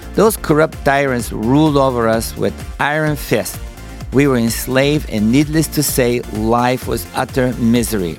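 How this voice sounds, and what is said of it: Bulgarian accent. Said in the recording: “As you could tell by my accent, I'm not originally from the United States. I was born and raised in Bulgaria”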